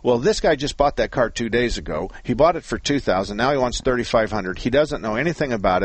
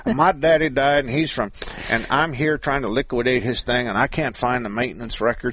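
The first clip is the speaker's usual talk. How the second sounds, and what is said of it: Put-on Texas accent. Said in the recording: “I'm doing a Texas accent for the Milwaukee guy, so I'm going to say he's from Texas”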